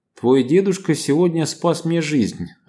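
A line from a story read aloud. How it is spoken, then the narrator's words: Plain. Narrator (Russian): ответил Иван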